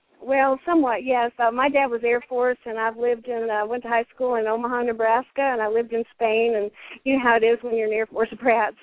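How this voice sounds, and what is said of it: Southern American accent. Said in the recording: “She got that Southern accent. I love that Southern accent.”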